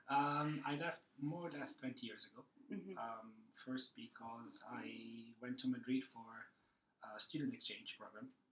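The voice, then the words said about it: Italian accent. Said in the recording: “I'm Italian. You can tell that from the accent.”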